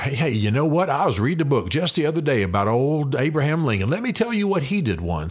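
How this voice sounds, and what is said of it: Laid-back folksy put-on accent. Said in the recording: “I don't mean to mock an accent, but I'm just saying it just couldn't have been more laid back”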